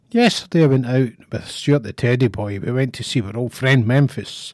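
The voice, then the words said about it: Voice sounds unwell. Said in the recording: “I'm currently full of the steroids and amoxicillin. You'll probably hear that in my voice”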